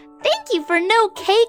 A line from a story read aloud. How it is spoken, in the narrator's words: said with a giggle